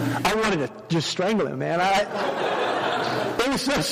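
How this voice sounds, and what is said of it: Usual voice. Nothing is said of it.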